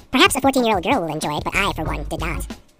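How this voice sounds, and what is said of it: High-pitched cartoon mouse voice. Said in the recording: “I'm going to do it in my Mickey Mouse voice.”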